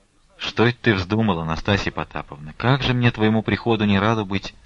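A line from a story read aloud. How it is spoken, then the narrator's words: Dry tone. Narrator (Russian): сухо проговорил Алексей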